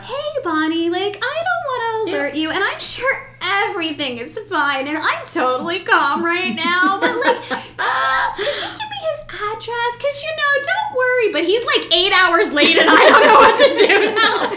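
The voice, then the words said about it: A fretful mom voice. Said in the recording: “I'm doing the mom voice. You know this voice.”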